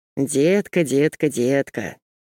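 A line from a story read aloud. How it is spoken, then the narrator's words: Anguished sigh. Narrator (Russian): вздохнул Ник прямо-таки с болью душевной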